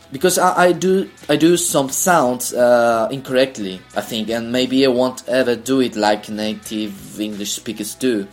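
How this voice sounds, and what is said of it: Chilean or Latin American accent. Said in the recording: “my accent is a mix between American and British, maybe, but I wouldn't say that my accent is any of those. It's not American and not British, obviously, but mostly a Chilean accent, or maybe a Latin American accent.”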